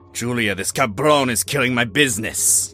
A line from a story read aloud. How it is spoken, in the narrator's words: Carlos growled